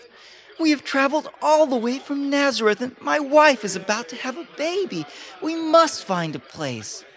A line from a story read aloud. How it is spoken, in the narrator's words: pleaded Joseph